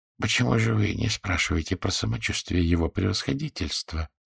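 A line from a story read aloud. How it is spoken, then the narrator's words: Quiet question. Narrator (Russian): спросил он также негромко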